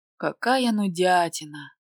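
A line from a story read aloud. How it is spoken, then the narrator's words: Low bored groan. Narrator (Russian): застонала в полголоса, подавив зевок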